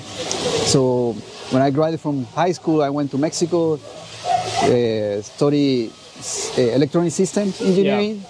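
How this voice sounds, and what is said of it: Non-native English accent. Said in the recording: “you mean by my accent, I guess. ... I have an accent.”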